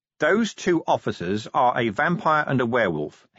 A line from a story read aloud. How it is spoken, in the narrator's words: said, still in the same level voice